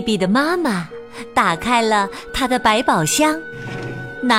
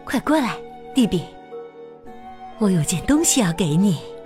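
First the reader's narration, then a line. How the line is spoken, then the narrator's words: Soft call. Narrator (Chinese): 蒂比的妈妈轻声的叫他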